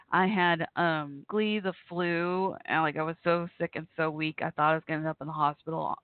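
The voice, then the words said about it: Slightly hoarse voice. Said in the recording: “can you tell my voice is still a little hoarse?”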